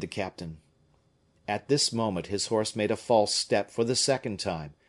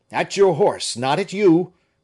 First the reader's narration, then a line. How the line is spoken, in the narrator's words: cried he to Fouquet